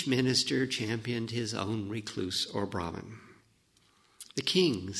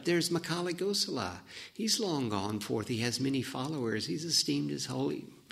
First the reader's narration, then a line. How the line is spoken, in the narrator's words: some other minister piped up